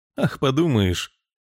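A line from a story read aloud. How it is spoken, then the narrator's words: Dismissive snort. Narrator (Russian): хмыкнул филадельфиец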